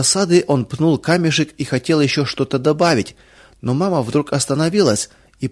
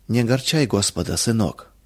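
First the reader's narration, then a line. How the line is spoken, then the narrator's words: Soft, gentle voice. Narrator (Russian): мягко сказала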